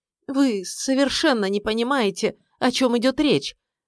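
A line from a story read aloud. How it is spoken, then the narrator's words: Strained, forced out. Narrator (Russian): наконец выдавила она из себя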